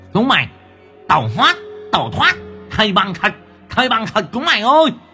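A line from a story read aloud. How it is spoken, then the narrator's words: Loud command. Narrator (Vietnamese): lớn tiếng ra lệnh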